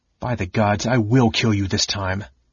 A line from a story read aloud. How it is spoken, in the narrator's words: Caramon said through clenched teeth